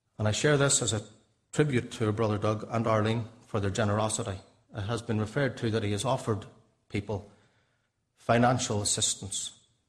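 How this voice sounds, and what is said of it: Northern Irish accent. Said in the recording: “my accent is not Canadian. I'm from Northern Ireland.”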